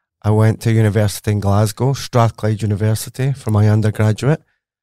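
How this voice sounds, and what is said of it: Scottish accent. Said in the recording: “as you can tell from my accent, I am very Scottish”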